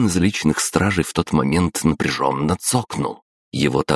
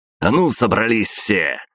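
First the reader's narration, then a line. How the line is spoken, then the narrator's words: Barked command. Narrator (Russian): рявкнул Артем Приобский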